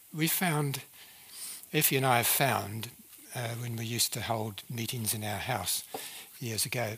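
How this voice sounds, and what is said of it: New Zealand accent. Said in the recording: “I speak with a New Zealand accent”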